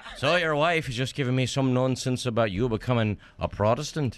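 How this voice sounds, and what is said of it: Irish accent. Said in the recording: “somebody else has an Irish accent”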